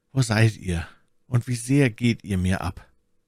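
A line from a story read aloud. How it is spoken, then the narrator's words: Sighing. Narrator (German): seufzte er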